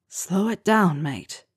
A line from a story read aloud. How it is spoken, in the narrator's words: Harry whispered in his ear